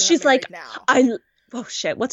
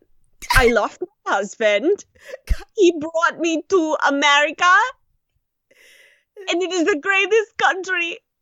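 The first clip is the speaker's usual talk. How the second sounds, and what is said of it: Put-on Russian accent. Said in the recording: “What's a Russian accent? ... all my accents just sound like all the goddamn ... trying to channel Red from Orange is the New Black”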